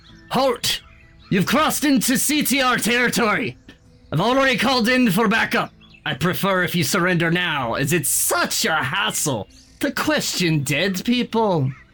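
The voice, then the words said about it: Put-on character accent. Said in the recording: “sorry, gotta find the accent.”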